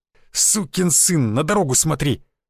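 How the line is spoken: Hissed. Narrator (Russian): прошипел он

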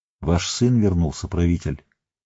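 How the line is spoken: Quiet. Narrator (Russian): негромко сказал он

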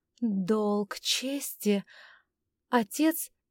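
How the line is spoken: Sighing, then pausing. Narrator (Russian): Августа вздохнула и сделала паузу, будто собиралась с мыслями

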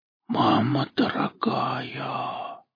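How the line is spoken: Amazed whisper. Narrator (Russian): прошептал Жорик, поражаясь его формами

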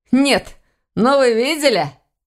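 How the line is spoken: Laughing question. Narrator (Russian): Смеясь, спросил он у сестры Войтаха

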